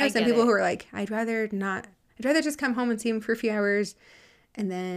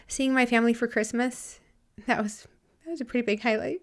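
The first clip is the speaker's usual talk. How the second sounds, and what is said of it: Emotional, tearful voice. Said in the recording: “Sorry, I'm getting emotional. ... now I'm like all gross and crying.”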